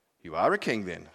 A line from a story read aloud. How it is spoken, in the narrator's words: said Pilate